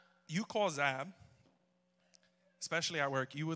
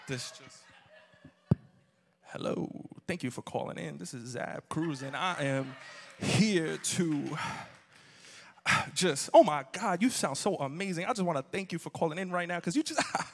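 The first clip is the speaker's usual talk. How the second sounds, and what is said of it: Smooth R&B-style phone voice. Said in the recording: “phone voice ... you would think you called into some R&B”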